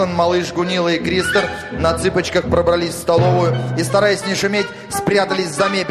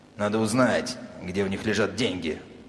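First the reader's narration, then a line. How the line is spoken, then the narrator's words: Hoarse whisper. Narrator (Russian): сказал Филле хриплым шепотом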